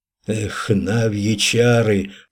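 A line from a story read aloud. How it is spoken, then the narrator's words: Whispered. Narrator (Russian): прошептал Вех Радомыслу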